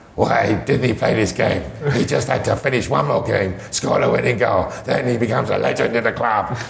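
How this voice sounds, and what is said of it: Imitates another person's voice. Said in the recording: “I think that's a very good impression of Rahul Sanllehi.”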